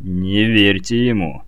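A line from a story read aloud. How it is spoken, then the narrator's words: Stubborn mutter. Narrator (Russian): упрямо пробурчал Лось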